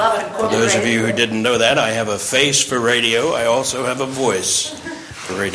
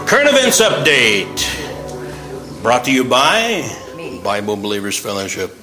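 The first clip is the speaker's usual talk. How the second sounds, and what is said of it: Radio announcer voice. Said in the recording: “That's my radio voice.”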